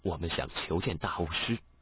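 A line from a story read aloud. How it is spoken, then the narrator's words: Meek, humble after deep breath. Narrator (Chinese): 他深深的呼吸，低声下气的道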